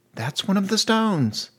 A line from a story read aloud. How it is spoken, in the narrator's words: Gilly said excitedly